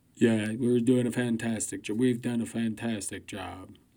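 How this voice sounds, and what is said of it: Poor imitation of another person's voice. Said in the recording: “Terrible Trump impersonation.”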